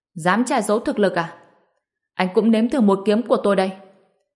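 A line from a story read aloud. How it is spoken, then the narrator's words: Pained roar. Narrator (Vietnamese): Anh ta đau đến mức nhăn mặt, rồi gầm lên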